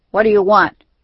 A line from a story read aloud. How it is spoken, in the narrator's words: asked sharply